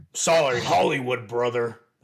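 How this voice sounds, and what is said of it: Poor Hulk Hogan impression. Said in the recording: “That was a terrible Hulk Hogan impression.”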